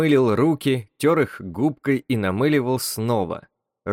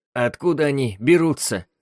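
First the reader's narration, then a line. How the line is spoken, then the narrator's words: Hoarse question. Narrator (Russian): спросил он сипло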